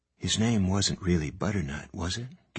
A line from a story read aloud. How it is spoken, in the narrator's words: Gansey asked Adam in a low voice